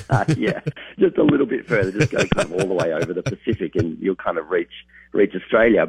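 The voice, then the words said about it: Australian accent. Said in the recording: “you can probably tell from my accent, not originally from America.”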